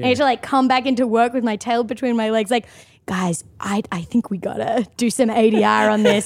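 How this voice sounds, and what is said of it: Australian accent. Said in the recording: “my Australian accent was funny ... how the Australian accent”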